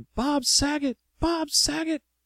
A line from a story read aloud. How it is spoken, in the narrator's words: I just started screaming